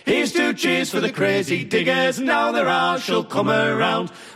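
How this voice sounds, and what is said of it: Singing in a Durham accent. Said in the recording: “They come from Durham, as you could probably tell from the accent.”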